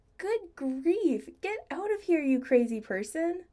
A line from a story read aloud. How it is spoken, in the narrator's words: Brad laughed